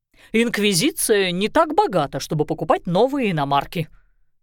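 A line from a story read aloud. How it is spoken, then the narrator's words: Quarrelsome snap. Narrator (Russian): склочно огрызнулся Семён Никитич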